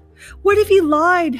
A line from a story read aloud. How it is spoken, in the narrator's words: howled